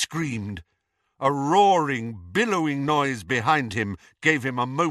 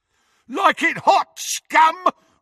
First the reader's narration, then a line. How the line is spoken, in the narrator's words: roared Crabbe as he ran